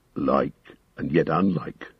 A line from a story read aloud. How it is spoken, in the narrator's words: muttered Gimli